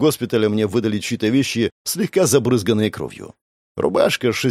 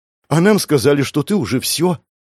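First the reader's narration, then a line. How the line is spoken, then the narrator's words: Joyful breathy beastwoman. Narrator (Russian): Радостно выдохнула зверолюдка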